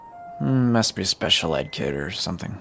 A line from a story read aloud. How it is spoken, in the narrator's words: mumbled